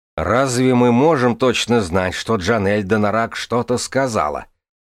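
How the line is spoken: Snapping retort. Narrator (Russian): огрызнулся сэр Барамон

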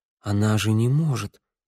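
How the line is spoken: Muttered. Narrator (Russian): пробормотал Тео

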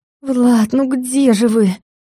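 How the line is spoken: Moaning. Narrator (Russian): простонала

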